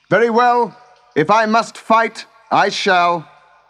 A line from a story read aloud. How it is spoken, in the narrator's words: He called out